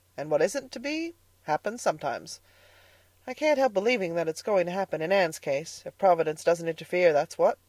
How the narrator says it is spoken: Rachel gloomily

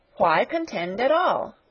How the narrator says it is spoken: cried Sarah impatiently

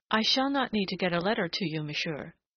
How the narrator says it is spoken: she told him stiffly

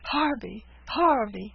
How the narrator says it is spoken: cried Caesar

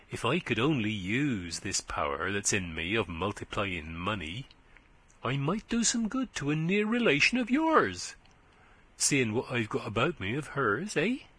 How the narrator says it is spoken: he said, in a confidential whisper

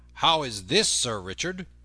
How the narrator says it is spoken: said he sternly

